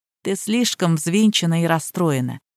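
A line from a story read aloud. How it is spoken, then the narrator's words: Soft speech in ear. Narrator (Russian): тихо говорил на ухо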